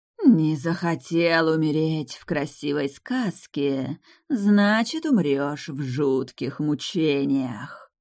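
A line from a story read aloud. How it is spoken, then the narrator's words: Hoarse rasp. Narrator (Russian): прохрипела Сафира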